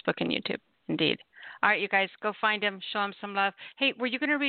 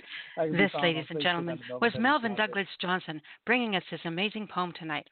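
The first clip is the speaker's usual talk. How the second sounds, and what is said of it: Announcer-style radio voice. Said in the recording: “That was my radio voice.”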